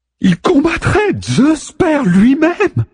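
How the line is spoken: Goddess exclaiming. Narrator (French): s'exclame la déesse

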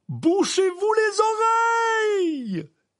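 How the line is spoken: Shouting. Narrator (French): cria M

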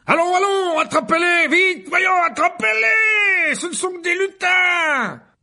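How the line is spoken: Yelled. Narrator (French): hurla Lockhart

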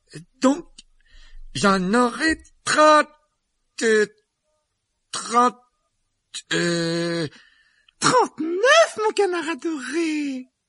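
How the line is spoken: Slow. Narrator (French): il dit lentement

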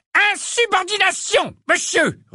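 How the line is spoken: Roaring stout man. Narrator (French): rugit un sorcier corpulent au nez rouge

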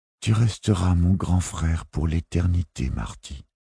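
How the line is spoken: Whisper. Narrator (French): chuchote Jack

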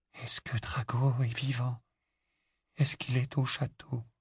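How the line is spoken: Barely audible whisper. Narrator (French): Le murmure était à peine audible

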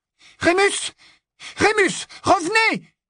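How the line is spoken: Exclaiming. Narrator (French): s'écria Hermione

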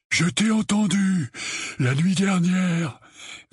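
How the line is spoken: Breathless reply. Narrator (French): répondit Dudley, la voix haletante

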